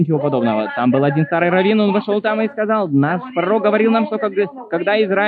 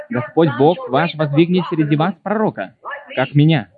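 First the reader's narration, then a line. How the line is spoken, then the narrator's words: Plain. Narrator (Russian): это сказал Моисей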